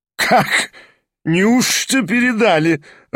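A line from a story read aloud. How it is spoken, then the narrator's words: Laughing again. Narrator (Russian): рассмеялся опять Кармазинов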